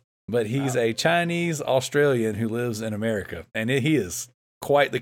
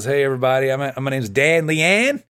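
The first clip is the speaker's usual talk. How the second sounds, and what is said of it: Strong Australian accent impression. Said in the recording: “he's got this strong Australian accent”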